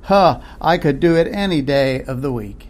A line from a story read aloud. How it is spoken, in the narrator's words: let out with a laugh and said